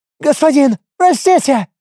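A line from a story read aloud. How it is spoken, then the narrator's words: Pleading squeal. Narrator (Russian): взвизгнул умоляюще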